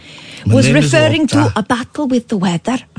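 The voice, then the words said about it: Put-on Viking-ish accent. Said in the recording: “I'm going to do it in Viking-ish accent.”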